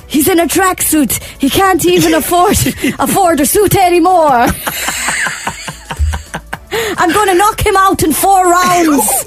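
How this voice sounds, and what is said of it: Unconvincing Irish accent imitating McGregor. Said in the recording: “referring to Mayweather, alright, I'm going to try my Irish accent ... What part of Dubai is he from exactly?”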